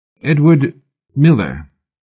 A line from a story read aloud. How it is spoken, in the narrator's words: Mallory blurted, a sudden chill of protective suspicion striking him at the last instant